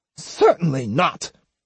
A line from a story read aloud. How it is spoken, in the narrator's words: Osugi snapped